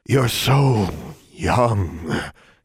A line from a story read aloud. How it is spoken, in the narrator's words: he breathed, and warm